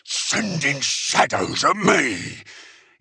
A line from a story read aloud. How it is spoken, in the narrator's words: he bellowed